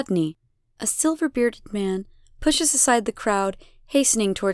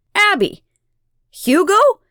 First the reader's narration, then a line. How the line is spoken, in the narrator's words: He shouts and bolts toward the flames